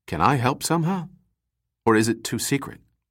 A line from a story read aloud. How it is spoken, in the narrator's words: Les Gorm said quietly